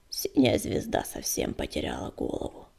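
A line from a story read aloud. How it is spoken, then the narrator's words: Mutter. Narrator (Russian): пробормотала она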